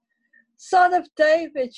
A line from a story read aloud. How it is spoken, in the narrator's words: she cried out